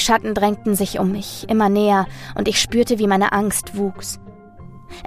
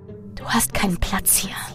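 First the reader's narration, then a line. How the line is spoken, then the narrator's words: Whispered. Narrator (German): flüsterte eine der Gestalten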